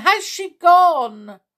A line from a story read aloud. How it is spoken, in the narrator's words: shouted again